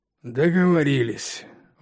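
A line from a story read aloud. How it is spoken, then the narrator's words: Exhaled finally. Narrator (Russian): выдохнул он наконец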